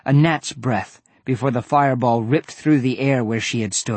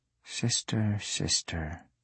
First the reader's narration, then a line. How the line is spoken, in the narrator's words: I murmured to myself